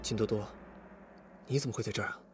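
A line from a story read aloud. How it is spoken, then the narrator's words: Quiet question. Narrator (Chinese): 李富贵低声问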